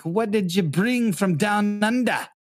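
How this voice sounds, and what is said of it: Poor attempt at Australian accent. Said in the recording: “That is not an Australian accent.”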